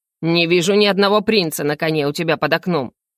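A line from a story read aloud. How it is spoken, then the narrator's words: Angry chuckle. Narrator (Russian): Зло хохотнул Шафранов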